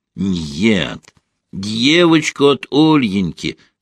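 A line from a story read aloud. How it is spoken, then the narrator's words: Plain. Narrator (Russian): сказал немец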